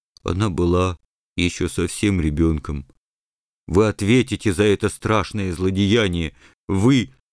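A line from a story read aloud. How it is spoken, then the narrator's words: Muffled, tearful. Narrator (Russian): Бульдозер с глазами полными слез глухо произнес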